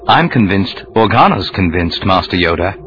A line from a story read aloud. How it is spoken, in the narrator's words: he said, keeping his voice low